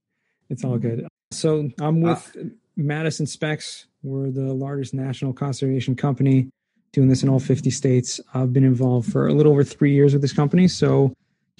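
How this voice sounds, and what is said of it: Slightly hoarse voice. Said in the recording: “my voice is already a little hoarse”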